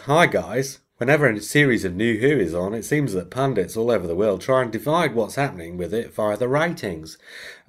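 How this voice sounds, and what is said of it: Put-on Australian accent. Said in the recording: “you can do the accent, are you? Of course you are.”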